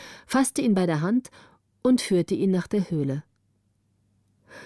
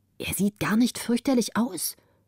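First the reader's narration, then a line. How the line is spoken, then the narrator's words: Whisper. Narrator (German): flüsterte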